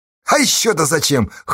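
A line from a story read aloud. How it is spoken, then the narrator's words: Skeptical snort. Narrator (Russian): хмыкнула Сташа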